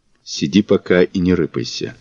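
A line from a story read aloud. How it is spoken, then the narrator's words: Even quieter whisper. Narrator (Russian): еще более тихим шепотом ответил Мазур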